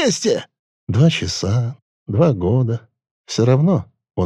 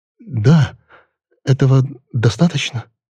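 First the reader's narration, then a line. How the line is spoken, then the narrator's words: Stammering. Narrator (Russian): сказал, запинаясь, Хестлер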